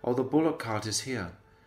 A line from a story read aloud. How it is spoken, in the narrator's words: Baladev Prabhu was following Krishna, and they both exclaimed